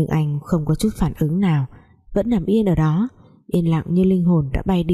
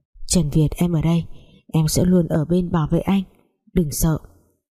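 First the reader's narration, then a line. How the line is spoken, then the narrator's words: Tender whisper. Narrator (Vietnamese): Giang Nhung nắm chặt lấy tay Trần Việt thì thầm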